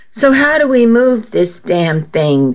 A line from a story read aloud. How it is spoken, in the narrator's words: Chrissy asked